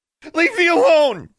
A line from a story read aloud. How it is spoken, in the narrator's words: she yelled